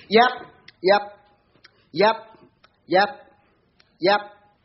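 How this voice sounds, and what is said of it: Imitates a dog. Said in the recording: “my dog impression”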